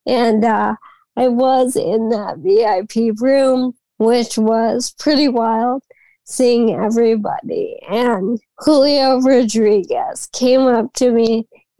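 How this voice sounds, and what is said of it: Strained voice, recovering from voice loss. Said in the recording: “As everyone can hear, I'm still regaining my voice after that weekend ... having lost my voice after speaking to so many people”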